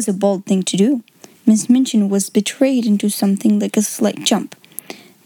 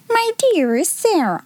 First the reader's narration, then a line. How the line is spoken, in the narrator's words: she exclaimed